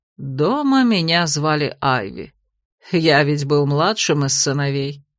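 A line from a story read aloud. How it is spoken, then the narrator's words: Soft smiling man. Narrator (Russian): мягко улыбнулся герцог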